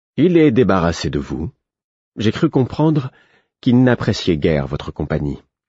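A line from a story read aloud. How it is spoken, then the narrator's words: Perfectly steady voice. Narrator (French): d'une voix parfaitement assurée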